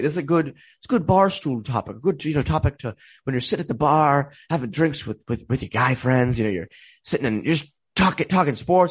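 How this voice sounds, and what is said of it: Imitates another person's accent. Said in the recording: “What's the Jimmy Cagney accent for?”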